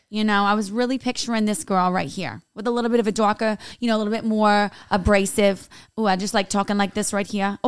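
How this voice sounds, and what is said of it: Put-on Staten Island New York accent. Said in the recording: “That's a very Staten Island accent, though. ... Queens, maybe, actually.”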